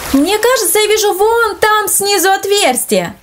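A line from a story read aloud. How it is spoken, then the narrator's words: Exclaimed. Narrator (Russian): воскликнул Андрей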